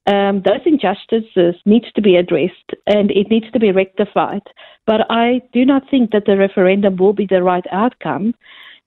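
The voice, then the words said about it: South African accent. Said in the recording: “you can probably hear from my accent ... I came from South Africa”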